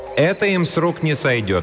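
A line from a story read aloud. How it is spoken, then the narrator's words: Calm, cheerful, hopeful voice. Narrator (Russian): объявила она спокойным и даже бодрым голосом, несущим надежду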